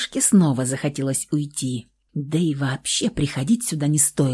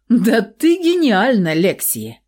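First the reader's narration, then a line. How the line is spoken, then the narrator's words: Laughing man. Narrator (Russian): рассмеялся мужчина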